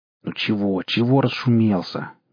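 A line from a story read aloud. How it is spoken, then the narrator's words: Displeased old man grumbling. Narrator (Russian): недовольно ворчал старый надзиратель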